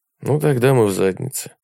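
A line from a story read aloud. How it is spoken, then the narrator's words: Sudden, flat voice. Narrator (Russian): внезапно сказал он бесстрастным голосом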